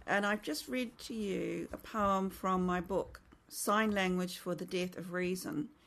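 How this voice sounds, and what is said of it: New Zealand accent. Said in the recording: “As you can tell by the accent, probably I'm Kiwi”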